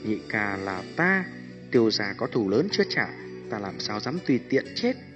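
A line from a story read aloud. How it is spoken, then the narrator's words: Soft, smiling. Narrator (Vietnamese): Tiêu Viêm mỉm cười, nhẹ giọng nói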